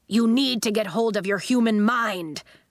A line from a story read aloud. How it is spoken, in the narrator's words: cried the ball-shaped human